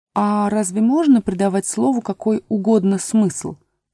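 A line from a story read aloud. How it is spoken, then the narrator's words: Plain. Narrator (Russian): спросила Алиса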